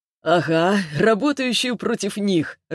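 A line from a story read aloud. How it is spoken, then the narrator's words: Laughing. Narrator (Russian): рассмеялся он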